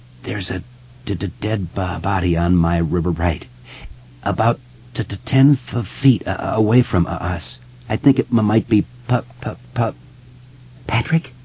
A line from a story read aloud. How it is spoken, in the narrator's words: Beverly asked, her voice trembling on the edge of hysteria